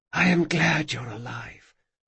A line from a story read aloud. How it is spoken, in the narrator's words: she whispered